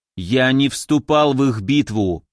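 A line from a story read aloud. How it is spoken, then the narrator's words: Through gritted teeth. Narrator (Russian): процедил Ильяс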